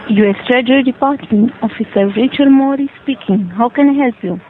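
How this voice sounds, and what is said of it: Foreign, non-American accent. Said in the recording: “you work for the U.S. Treasury with that accent ... I don't even think you're a goddamn American”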